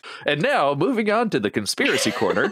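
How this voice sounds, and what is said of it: Imitates another person's voice. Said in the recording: “That's my Jamie impression.”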